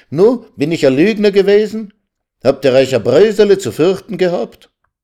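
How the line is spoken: Calling out. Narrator (German): rief er ihnen sogleich entgegen

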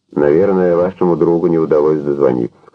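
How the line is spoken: Plain. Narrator (Russian): сказал Экс

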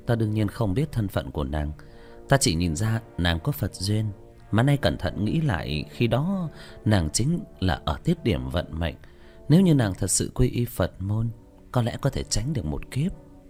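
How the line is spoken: Sighing. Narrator (Vietnamese): Tĩnh Tuệ Sư Thái thở dài

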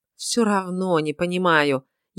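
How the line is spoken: Almost moaning. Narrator (Russian): едва не простонал я

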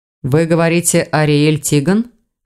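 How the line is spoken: Snorting. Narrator (Russian): хмыкнул Эверетт

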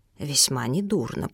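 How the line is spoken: Whisper. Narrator (Russian): прошептала миссис Данкелтроп своему супругу

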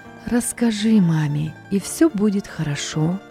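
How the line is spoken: Soft, tender inner voice. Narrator (Russian): тихо и нежно уже в который раз подсказывала совесть

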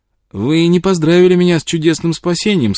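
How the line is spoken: Cheerful. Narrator (Russian): сказал он весело

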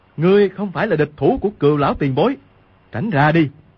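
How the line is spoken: Shout. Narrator (Vietnamese): Quách Tĩnh quát lên

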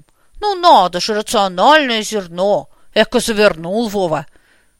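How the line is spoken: Snorting with a smirk, old man. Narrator (Russian): Дед фыркнул с усмешкой

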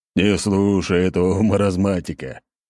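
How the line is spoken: Chuckle. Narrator (Russian): хохотнул Белкин

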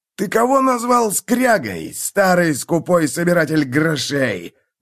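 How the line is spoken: Outraged howl. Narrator (Russian): взвыл Фиргиксон

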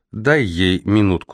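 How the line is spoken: Plain. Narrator (Russian): сказала она

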